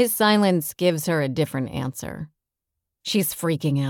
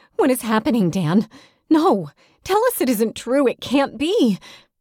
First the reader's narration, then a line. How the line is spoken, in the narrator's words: She's pleading